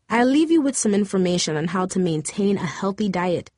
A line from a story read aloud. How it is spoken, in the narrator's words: the doctor said